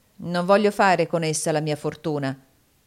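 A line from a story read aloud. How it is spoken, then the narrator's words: Curt, dry tone. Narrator (Italian): disse Shelby in tono asciutto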